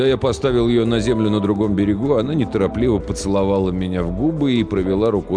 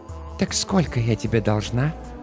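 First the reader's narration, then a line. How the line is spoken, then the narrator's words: Whispered right in ear. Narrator (Russian): прошептала Джоанна мне прямо в ухо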